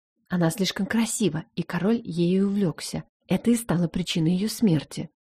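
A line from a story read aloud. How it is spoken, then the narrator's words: Whisper in ear. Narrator (Russian): зашептала мне на ухо Адиль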